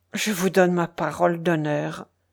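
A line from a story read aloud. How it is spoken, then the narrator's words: Soft. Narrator (French): dit-il doucement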